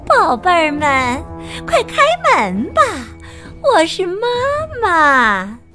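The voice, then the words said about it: Thin, sweet mother-goat voice. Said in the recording (Chinese): “模仿山羊妈妈甜美的声音说 ... 声音又细又甜”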